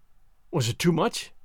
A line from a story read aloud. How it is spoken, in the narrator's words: I asked, a little faltering